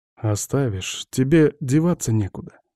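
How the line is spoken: Calm, inwardly shaking. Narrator (Russian): говорю я спокойно, а самого колотит

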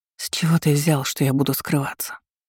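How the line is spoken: Quiet remark. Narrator (Russian): тихо заметила я

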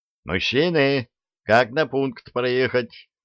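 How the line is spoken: Yelled. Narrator (Russian): заорал он, высунувшись в окошко микроавтобуса

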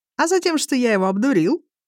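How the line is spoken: Cheerful. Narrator (Russian): весело сообщает Ирлик

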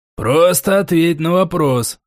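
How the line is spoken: Growled. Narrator (Russian): рыкнул Крик

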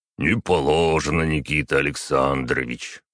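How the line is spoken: Regretful deep bass. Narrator (Russian): с сожалением пробасил огромный усатый гвардеец

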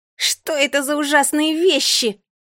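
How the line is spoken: Shrieking crazy girl. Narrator (Russian): визжала сумасшедшая девчонка

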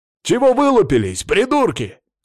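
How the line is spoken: Barking shout. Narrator (Russian): гаркнул я

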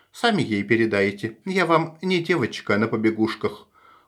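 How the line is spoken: Cold declaration. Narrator (Russian): холодно заявляет Эвелина

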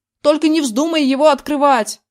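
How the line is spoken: Yelling after someone. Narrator (Russian): заорал вслед

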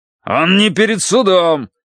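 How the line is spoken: Heated bark. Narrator (Russian): рявкнул Грейтхаус нарастающим жаром

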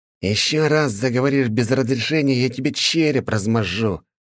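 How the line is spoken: Hissed threat. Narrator (Russian): прошипел купеческий сын

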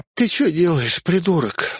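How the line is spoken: Sleepy sob. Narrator (Russian): всхлипнула Эльза с просонья

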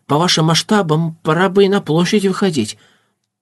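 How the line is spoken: Timid. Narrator (Russian): высказался робко

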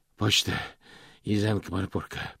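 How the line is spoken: Hoarse rasp. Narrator (Russian): прохрипел он

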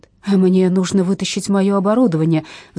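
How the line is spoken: Roaring. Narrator (Russian): взревел он

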